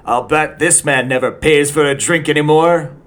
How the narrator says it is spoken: would shout

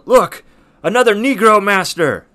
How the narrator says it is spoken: Benjamin Lay just yells

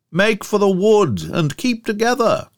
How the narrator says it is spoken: cried Lord John

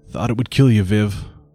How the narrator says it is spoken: he muttered

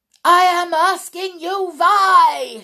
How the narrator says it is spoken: she screamed

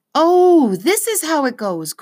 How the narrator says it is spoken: cried Lina

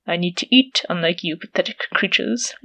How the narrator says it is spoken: Leopard growled

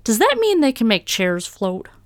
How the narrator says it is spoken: one of the heffin kids barked

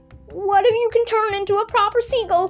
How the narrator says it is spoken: whimpered the ant, who was now so frightened

